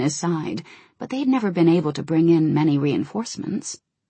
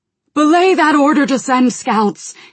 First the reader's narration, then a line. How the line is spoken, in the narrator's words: he shouted to Blaine